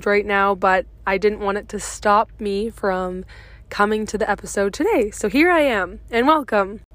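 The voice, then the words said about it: Voice affected by a cold. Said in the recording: “apologize for my voice. I have a bit of a cold”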